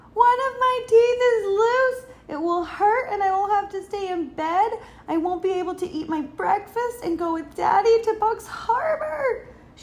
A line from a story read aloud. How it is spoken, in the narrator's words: cried